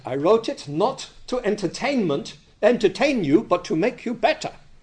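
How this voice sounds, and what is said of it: Bad put-on German accent. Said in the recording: “Excuse my bad German accent.”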